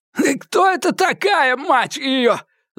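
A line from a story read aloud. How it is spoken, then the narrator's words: Gasping, forced out. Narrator (Russian): задыхаясь, выдавил Эдди Фалько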